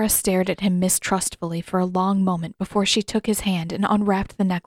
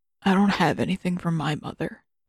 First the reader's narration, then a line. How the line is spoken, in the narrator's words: he said in a half voice